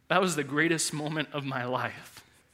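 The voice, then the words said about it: Emotional, choked-up voice. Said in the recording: “I got emotional last service, I'm gonna get emotional again.”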